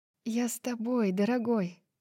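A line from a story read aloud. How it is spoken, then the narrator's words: Whisper. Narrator (Russian): прошептала Брайс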